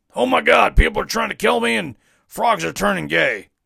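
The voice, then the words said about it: Imitates another person's voice. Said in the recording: “that's my Alex Jones impression, by the way”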